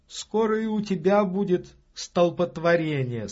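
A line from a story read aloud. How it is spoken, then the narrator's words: Laughing. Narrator (Russian): сказала, смеясь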